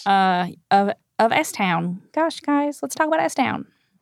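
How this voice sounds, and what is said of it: Put-on Texas southern accent. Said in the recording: “Sorry, it's my southern, that's my Texas southern accent.”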